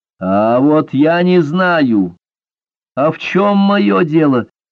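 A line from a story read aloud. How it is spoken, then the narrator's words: Furious breathy outburst. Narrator (Russian): яростно выдохнул Рамбер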